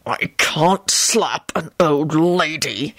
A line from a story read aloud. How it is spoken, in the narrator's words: he replied through gritted teeth